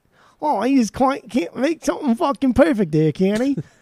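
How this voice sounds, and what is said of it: Bad put-on Cockney accent. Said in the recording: “That's my that's my uh, Cockney accent there. ... that was all Australia. ... that was New Zealand mixing with like the yeah. That was everything. ... That was the worst.”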